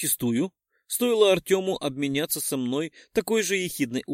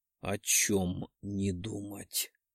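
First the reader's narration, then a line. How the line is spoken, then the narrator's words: Insinuating husky voice. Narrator (Russian): Вкрадчивый и хриплый голос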